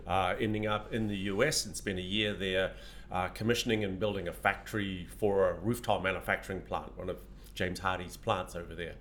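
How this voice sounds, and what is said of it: New Zealand accent. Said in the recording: “My accent is, I'm obviously not from Southern California. I actually came out of New Zealand”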